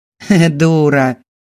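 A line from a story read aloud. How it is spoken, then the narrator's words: Young woman's nasty laugh. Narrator (Russian): Девушка неприятно рассмеялась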